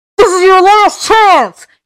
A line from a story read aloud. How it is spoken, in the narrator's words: he shouted